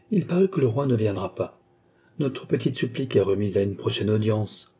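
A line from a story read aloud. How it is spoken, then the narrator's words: Curt voice. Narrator (French): dit-elle d'une voix brève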